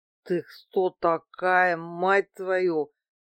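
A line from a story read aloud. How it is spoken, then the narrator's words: Slurred mumble. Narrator (Russian): промямлил Василий, еле ворочая языком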